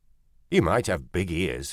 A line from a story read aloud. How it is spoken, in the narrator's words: said Toulez